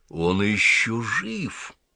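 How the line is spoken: Sighing. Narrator (Russian): Аббат вздохнул

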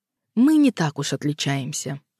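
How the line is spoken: Calm firm speech. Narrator (Russian): спокойно и твердо проговорил Тав

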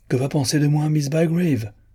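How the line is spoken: Sudden vexed exclamation. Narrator (French): s'écria-t-il avec un soudain élan de dépit

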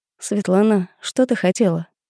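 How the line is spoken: Cold question. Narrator (Russian): холодно поинтересовалась я

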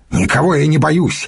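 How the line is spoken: Angry, curt. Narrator (Russian): сердито бросил Йонах

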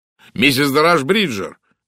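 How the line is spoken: Exclaiming. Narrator (Russian): воскликнул сэр Чарльз

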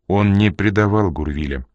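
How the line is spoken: Firm, calm voice. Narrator (Russian): продолжала Энн твердым и спокойным голосом

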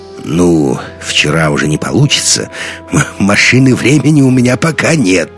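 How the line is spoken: Velvety chuckle. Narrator (Russian): олигарх бархатно хохотнул

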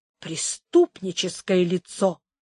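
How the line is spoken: Quiet. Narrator (Russian): тихо добавила она

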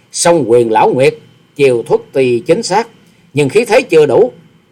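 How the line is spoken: Impassive, sneering. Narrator (Vietnamese): Hoa Sĩ Kiệt mặt không đổi sắc, miệng cười khẩy

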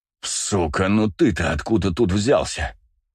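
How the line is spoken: Growled. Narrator (Russian): прорычал Винт

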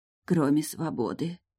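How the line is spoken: Whispered. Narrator (Russian): прошептала женщина

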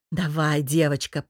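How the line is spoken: Growled. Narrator (Russian): прорычал муж

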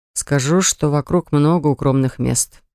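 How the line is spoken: Sigh. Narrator (Russian): вздохнул

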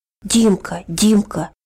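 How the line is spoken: Senseless whisper, then crying. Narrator (Russian): бессмысленно прошептал Араф и заплакал

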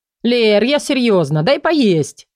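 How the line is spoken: Playful exclamation. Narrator (Russian): игриво воскликнул правитель

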